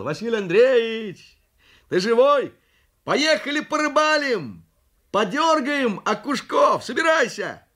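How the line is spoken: Shouting. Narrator (Russian): соседу кричал

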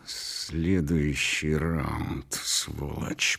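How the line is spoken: Hissed in ear. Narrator (Russian): прошипел он мне в ухо

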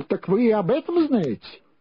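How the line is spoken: Exclaiming. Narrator (Russian): воскликнул

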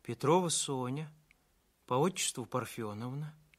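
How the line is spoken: Quiet reply. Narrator (Russian): тихо ответила та

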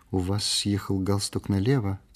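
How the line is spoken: Quiet remark. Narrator (Russian): тихо заметила она

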